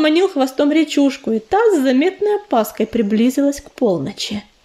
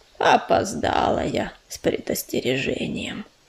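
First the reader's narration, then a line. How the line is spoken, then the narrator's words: Sighing. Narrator (Russian): вздохнула барсучиха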